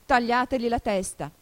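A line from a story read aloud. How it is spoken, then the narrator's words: Queen shouting. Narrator (Italian): La regina gridò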